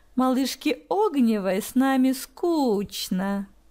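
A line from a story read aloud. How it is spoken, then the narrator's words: Gleeful mocking drawl. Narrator (Russian): Протянул Марк, обрадовавшись возможности поиздеваться над ней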